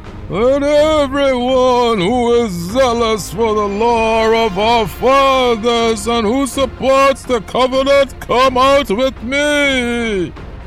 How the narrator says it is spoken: Mattathias cried out in a loud voice

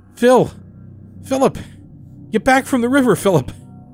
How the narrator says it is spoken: cried as I ran, the salty tears streaming into my open mouth as I called out over panting breaths

